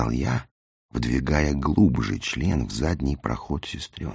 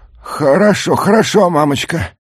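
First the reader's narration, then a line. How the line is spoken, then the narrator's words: Near moan. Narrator (Russian): Почти простонал я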